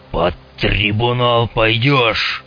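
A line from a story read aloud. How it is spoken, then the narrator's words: General's uncontrolled roar. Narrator (Russian): взревел генерал, чувствуя, что его несет, но не в состоянии уже остановиться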